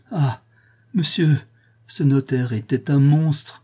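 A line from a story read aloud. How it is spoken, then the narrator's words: Crying out. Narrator (French): s'écria Madame Georges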